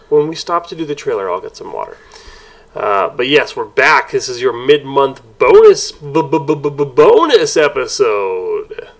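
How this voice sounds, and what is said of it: Congested, scratchy voice. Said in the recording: “I'm a little under the weather. ... I have a bit of a cold. ... It's all up in my sinuses. ... it's making my throat a little scratchy.”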